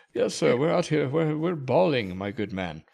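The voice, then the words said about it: Put-on British accent. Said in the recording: “That's a word that should not be said with a British accent.”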